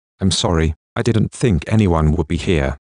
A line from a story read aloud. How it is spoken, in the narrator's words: she stammers